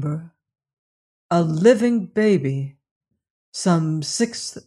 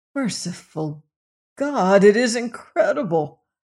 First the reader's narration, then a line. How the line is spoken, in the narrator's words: groaned Robert Cairn